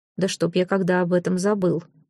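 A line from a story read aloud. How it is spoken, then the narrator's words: Low voice. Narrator (Russian): вполголоса откликнулся он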